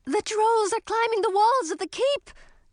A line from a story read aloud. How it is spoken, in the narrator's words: Grisina shouted from the entrance to the great hall